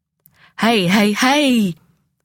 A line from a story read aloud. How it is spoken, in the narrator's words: our victim spluttered